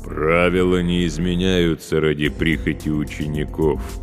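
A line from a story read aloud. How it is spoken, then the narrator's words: Booming from overhead. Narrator (Russian): прогудело над головой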